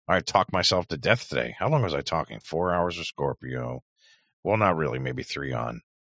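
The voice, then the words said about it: Worn-out, hoarse voice. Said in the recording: “boy, oh boy, the throat's wearing it ... Yeah, mine's falling apart.”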